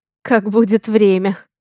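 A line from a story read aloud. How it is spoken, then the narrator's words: Grim smirk. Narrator (Russian): Мрачно усмехаюсь я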